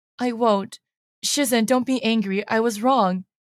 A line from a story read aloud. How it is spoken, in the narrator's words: Lo Bing-he says softly